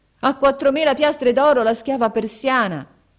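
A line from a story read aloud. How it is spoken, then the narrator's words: Loud shout. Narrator (Italian): Haji Hassan gridò ad alta voce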